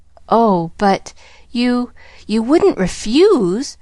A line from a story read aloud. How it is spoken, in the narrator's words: faltered Pollyanna in quick panic